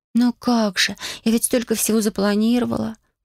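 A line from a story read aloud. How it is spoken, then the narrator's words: Sighing. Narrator (Russian): вздохнула она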